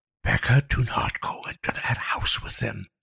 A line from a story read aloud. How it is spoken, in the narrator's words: Liam hissed